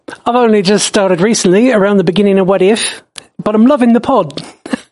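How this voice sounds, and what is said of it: Put-on New Zealand accent. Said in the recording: “got to do the Kiwi voice”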